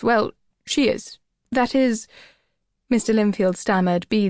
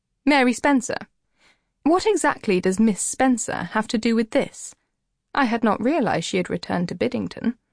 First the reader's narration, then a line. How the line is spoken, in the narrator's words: said sharply